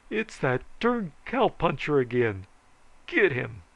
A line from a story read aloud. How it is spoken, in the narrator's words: bawled